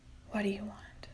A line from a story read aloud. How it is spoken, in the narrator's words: She whispered